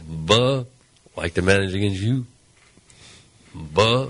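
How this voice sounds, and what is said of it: Tony La Russa impression. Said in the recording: “I'm working on Tony La Russa ... my La Russa impersonation”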